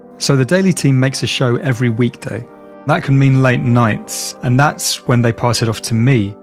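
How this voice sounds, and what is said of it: British London accent. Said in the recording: “You might have already guessed from my accent, I live in London”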